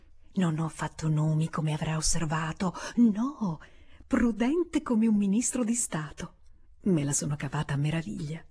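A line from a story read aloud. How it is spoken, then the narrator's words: Added under breath. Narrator (Italian): aggiungesse sottovoce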